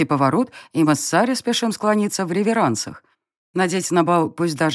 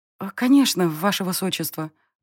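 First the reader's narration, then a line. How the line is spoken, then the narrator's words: Timid babble. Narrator (Russian): пролепетала Сари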